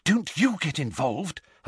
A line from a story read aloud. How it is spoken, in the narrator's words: Hermione whispered urgently to him